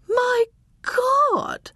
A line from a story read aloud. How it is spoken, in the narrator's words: Irene cried